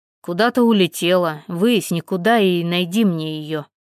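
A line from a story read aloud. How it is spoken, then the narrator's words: Growl, young father. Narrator (Russian): рыкнул молодой отец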